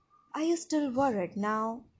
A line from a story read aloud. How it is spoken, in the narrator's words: he murmured against my skin